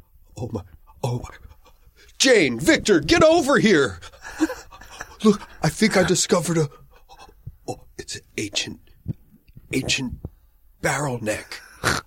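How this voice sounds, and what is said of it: Impression of a friend. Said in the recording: “my impression of Randy. Here's Randy as an archaeologist.”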